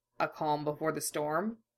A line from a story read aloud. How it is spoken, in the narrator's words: Mace asked quietly